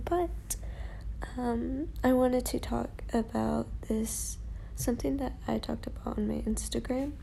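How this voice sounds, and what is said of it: Tired, exhausted-sounding voice. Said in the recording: “I sound very tired ... I'm a little exhausted”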